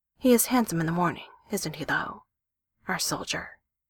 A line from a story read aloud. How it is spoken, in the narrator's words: Jen murmured against her mouth